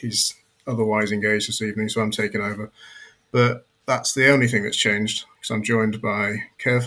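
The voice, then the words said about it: English accent. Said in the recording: “a weird English accent”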